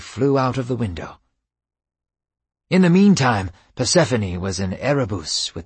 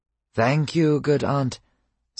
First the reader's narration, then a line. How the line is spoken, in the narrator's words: said Hermes